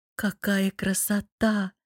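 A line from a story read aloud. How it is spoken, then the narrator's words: Admiring. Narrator (Russian): оценила нежно-голубой каскад юбок Джейма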